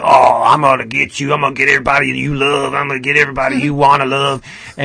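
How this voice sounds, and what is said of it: Character voice, southern accent. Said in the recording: “is a southern accent? ... He does.”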